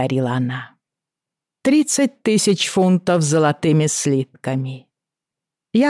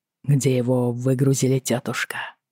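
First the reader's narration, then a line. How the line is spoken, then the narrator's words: Quiet question. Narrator (Russian): тихо спросил Джейми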